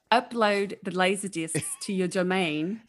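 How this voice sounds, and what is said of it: Put-on New Zealand accent. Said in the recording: “I've been working on my New Zealand accent ... It's pretty good.”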